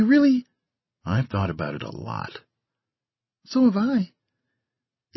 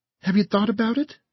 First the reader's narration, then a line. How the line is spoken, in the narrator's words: She asked earnestly, phonily